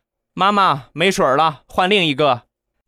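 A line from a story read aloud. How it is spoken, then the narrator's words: Child shouting to mother. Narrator (Chinese): 冲着他妈大喊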